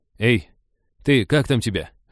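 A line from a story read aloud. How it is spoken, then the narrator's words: Calling out. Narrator (Russian): окликнул Женька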